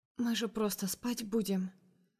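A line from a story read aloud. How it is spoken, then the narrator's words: Barely audible. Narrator (Russian): проговариваю еле слышно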